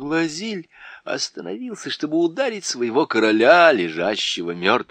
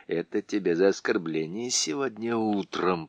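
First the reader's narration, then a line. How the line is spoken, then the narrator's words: Whispered. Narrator (Russian): прошептал он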